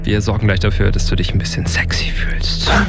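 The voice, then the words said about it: Whispered. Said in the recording (German): “dass ich geflüstert habe ... Möchtest du nicht, dass ich flüstere?”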